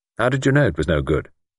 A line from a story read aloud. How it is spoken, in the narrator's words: Luke asked sharply